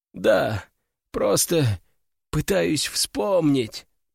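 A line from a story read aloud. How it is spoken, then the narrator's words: Hoarse, feigning lost victim. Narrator (Russian): прохрипел я, усиливая образ потерянной жертвы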